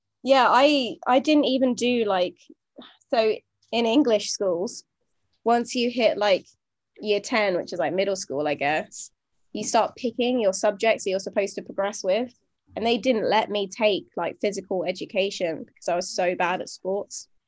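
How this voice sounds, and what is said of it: Noticeable regional accent. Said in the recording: “it's the accent”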